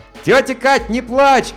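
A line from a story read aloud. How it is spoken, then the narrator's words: Shouted. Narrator (Russian): крикнул я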